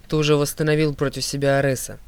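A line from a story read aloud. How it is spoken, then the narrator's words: Reminding. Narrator (Russian): напомнила Талия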